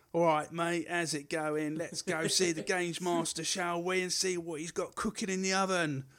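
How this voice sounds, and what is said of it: East London accent. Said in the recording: “East London”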